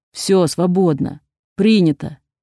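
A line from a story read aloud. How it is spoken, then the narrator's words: Breathless growl. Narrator (Russian): зарычал, тяжело дыша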